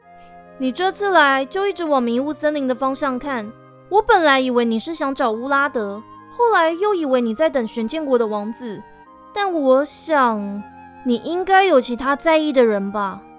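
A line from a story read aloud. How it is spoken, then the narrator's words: Knowing, smiling. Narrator (Chinese): 他了然于心的笑了笑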